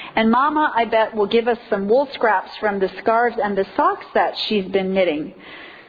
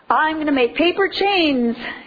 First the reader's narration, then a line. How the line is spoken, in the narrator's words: yelled Junior